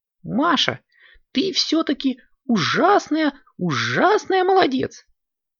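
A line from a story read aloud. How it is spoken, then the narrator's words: Squeaky mouse voice. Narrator (Russian): пискнул мышонок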